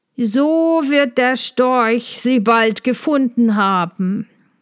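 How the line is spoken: Call. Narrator (German): rief ich ihm zu

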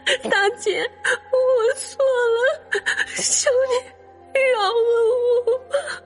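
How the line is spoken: Tearful helpless pleading. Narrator (Chinese): 爱丽丝无奈，哭着哀求

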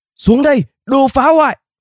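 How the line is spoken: Old woman shouting. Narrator (Vietnamese): Bà cụ lại quát

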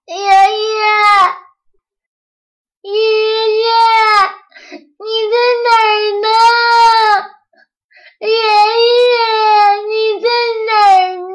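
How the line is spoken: Shouting while walking. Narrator (Chinese): 一边走一边喊

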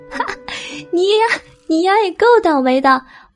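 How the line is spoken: Hearty laughter. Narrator (Chinese): 悠悠忍不住捧腹大笑

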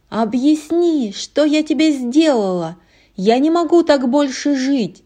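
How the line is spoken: Woman shouting. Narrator (Russian): кричала Анна

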